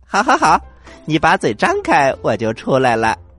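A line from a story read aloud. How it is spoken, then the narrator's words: Laughing. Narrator (Chinese): 他笑着说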